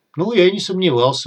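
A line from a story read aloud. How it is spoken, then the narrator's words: Sighing. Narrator (Russian): вздохнул бандит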